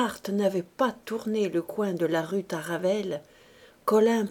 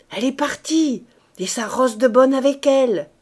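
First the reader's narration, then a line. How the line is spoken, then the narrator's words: Shouted. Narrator (French): cria-t-elle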